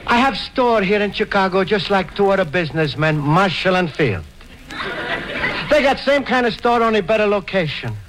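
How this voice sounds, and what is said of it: Italian-accented broken English character voice. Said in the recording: “words don't even have Italian accent”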